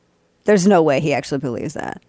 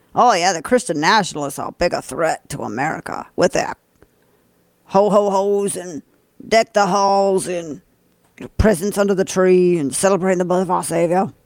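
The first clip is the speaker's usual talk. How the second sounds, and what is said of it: Imitates another person's accent. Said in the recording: “That's my best attempt at his accent.”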